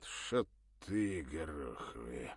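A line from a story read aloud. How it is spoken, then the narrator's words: Through gritted teeth. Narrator (Russian): сквозь зубы процедил Серегин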